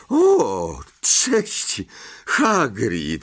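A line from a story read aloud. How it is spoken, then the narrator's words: Stammered. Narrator (Polish): wyjąkał Harry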